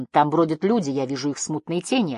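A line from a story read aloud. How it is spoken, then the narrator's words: Plain. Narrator (Russian): ответила Жасмин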